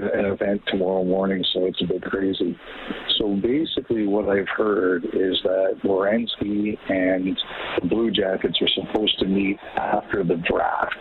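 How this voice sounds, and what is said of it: Quiet whispering speech. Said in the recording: “if I'm whispering a bit, I'm on a train.”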